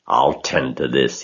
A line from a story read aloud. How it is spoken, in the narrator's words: he chuckled